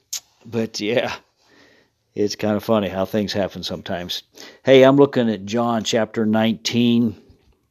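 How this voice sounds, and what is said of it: Speaks with a slight twang accent. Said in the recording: “the pronunciation maybe a little bit off and a little bit of a twang and a little bit of an accent”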